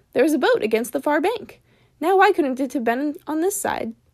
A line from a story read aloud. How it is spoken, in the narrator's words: Bilbo cried